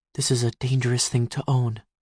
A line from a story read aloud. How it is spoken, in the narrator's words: she whispered